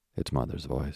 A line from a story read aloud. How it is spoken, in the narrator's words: said Jim